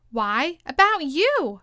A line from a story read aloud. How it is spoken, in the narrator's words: Tweedledee exclaimed, clapping his hands triumphantly